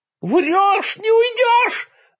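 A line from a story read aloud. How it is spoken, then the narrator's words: Howl. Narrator (Russian): взвыл государственный преступник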